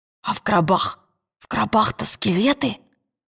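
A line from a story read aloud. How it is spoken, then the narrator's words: Whisper. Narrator (Russian): прошептал Роджер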